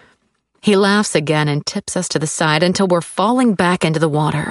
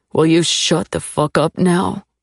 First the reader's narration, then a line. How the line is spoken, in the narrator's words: He says slowly, cruelly